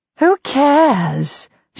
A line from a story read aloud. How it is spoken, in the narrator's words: says dreamily